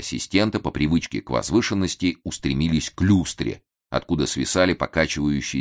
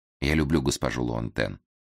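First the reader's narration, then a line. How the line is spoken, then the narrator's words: Calm, matter-of-fact. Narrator (Russian): спокойно, будто констатируя хорошо известный факт, заявил Девяткин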